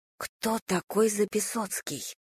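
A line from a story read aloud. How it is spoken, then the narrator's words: Admiring whisper. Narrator (Russian): восхищенным шепотом спросила Надя у Димы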